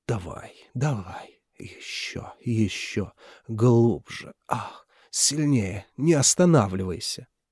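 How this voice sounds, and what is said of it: Breathy mocking parody. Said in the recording (Russian): “Пародировал он с придыханием”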